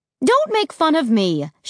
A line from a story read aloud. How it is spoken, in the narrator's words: snapped